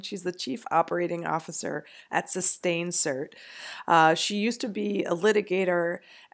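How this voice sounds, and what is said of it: Sick, strained voice. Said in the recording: “excuse my voice, I'm sick”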